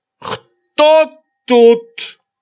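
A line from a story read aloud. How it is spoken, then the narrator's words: Drunken shout. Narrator (Russian): закричал на меня Гуськов совершенно пьяным голосом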